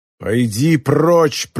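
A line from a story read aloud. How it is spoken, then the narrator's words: Growled. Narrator (Russian): прорычал Рю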